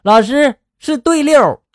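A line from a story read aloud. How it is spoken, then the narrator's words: Child, loudly. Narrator (Chinese): 后排的小明大声的就说了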